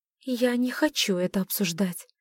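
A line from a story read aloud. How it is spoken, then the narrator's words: Sharp exhale. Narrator (Russian): резко выдохнула она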